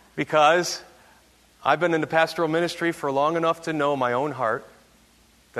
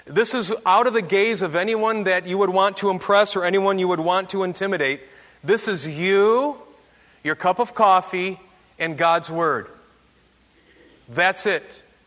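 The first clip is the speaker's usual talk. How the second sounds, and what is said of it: Yelling, raised voice. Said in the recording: “why are you saying it like that, and why are you yelling a little bit?”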